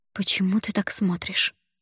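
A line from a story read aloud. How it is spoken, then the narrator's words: Whispered. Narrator (Russian): Прошептала я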